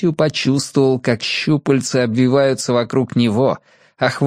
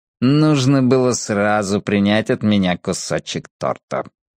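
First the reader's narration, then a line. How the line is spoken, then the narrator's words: Smirk right in ear. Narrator (Russian): хмыкнул кто-то в самое ухо Мэтью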